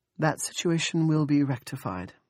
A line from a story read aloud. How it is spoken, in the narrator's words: Andrea said